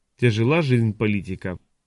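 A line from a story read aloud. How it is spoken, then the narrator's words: Gloomy. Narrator (Russian): мрачно заметил Адамант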